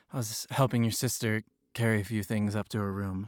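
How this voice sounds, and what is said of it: Out of breath, panting. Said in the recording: “Out of breath? ... that's why I'm out of breath.”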